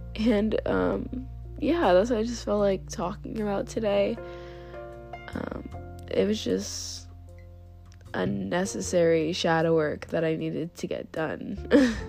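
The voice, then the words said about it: Sick, rough-sounding voice. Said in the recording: “I am terribly sick and you can hear my voice sounds terrible”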